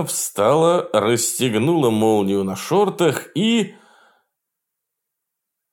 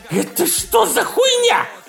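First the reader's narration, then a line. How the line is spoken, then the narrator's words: Squealing. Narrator (Russian): взвизгнул он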